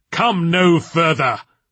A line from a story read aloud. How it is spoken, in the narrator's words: shouted Diablerie through the door